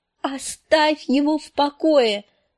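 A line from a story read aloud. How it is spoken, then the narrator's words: Yell. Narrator (Russian): завопила Санса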